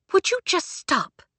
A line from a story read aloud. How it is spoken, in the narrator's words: Claire hissed